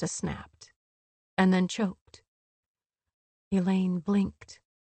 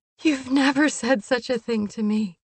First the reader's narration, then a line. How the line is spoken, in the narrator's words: she laughed again